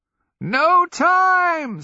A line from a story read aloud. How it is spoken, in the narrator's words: someone is screeching, one of the hags